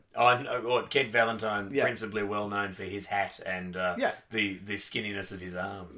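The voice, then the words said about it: Broad non-British accent. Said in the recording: “you are not British ... an accent that is described in my homeland as cartoonishly broad”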